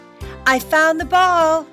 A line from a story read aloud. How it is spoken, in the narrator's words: Suddenly, Liz shouted